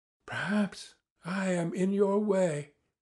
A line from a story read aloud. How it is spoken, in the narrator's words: she began timidly, hardly audibly